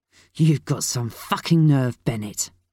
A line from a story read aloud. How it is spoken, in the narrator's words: he spat